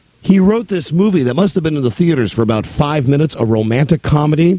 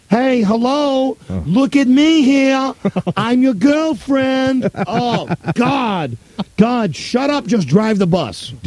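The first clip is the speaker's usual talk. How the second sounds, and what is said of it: Sandra Bullock's put-on New York accent. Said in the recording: “Sandra Bullock has the most annoying accent in this movie. She's trying to do a New York accent.”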